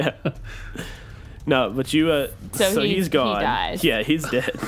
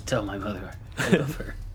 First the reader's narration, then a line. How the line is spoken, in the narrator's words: he whispers